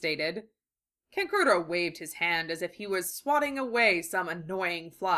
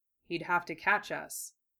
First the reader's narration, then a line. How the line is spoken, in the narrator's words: Gaara said in an unhurried, deadly voice